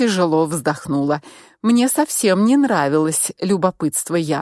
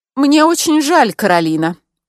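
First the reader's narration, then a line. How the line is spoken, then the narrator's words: Threatening tone. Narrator (Russian): угрожающим тоном начала Яна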